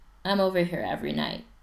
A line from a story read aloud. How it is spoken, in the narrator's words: he says